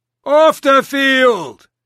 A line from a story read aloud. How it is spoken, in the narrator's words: the ump was shouting